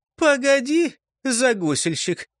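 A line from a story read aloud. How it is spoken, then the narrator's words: Laughing sassy stout woman. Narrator (Russian): посмеялась разбитная толстуха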